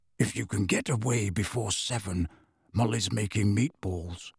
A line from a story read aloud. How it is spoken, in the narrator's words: He dropped his voice and said